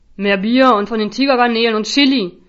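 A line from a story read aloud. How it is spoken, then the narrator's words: Guest roaring. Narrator (German): brüllte einer der Gäste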